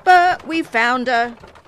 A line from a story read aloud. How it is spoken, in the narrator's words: he shouted